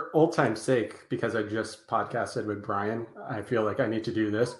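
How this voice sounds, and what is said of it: Usual voice. Nothing is said of it.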